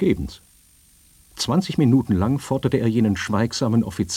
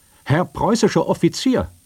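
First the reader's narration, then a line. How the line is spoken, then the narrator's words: Called out again. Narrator (German): Nochmals rief der Major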